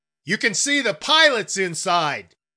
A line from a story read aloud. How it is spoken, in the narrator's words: yelled Mr